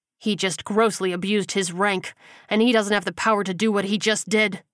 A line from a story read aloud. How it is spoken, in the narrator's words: Gilbert snarled